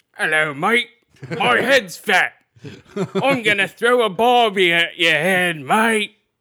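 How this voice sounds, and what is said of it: Put-on Australian accent. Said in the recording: “You got to do it in an Aussie accent.”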